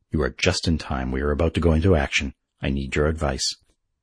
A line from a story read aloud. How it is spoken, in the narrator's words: said the Confederate chieftain gravely